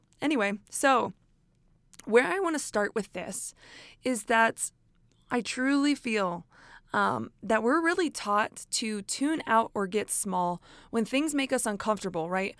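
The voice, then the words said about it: Hoarse, fading voice. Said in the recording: “my voice is already going out”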